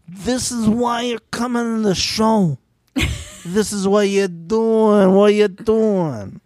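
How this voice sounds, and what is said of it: Imitates a comedian's voice. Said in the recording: “I feel like Sebastian Maniscalco ... Spot on impersonation ... Of the comedian ... he sounds like that”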